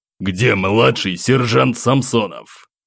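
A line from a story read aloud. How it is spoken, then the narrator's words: Loud barking colonel. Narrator (Russian): громко рявкнул полковник Герасимов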